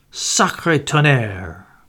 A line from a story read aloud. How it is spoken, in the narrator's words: growled Poirot